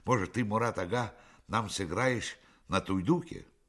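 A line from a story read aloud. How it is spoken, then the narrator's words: Embarrassed exclamation. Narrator (Russian): Смущенный неожиданной похвалой, Айдар воскликнул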